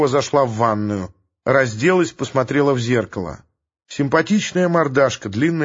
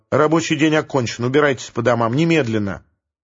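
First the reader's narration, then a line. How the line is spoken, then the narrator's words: Sharp announcement. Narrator (Russian): Оксана резко объявила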